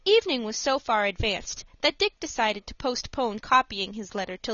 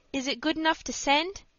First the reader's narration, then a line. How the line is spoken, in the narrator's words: asked Dick anxiously